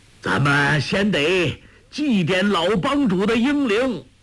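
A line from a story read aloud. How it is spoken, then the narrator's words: Loud. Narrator (Chinese): 鲁有脚却高声说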